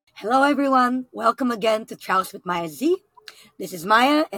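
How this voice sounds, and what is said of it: Weak, hard-to-hear voice. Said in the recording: “I am still recovering from my COVID ... my voice is a little bit, you can't hear it so well”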